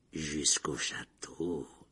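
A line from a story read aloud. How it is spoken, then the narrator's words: Silky, sugary voice. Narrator (French): dit Rogue d'une voix doucereuse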